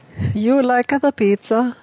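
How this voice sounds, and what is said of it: Put-on Italian-sounding accent. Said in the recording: “No, that's Italian. I was trying to get a Ukrainian. ... That is not Ukrainian. That's still Italian.”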